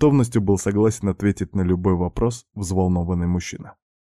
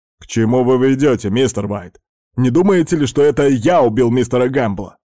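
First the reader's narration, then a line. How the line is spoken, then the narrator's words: Rattled, exasperated shout. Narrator (Russian): Окончательно выбитый из равновесия управляющий, не выдержав, прикрикнул на детектива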